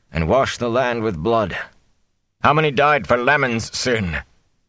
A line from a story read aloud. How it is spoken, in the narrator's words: Tam said suddenly, in a strong, angry voice